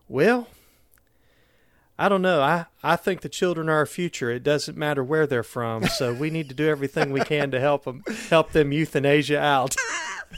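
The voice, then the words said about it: Imitated thick Southern US accent. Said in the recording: “He had a very Southern accent. He kind of Trip Tucker sort of Southern accent.”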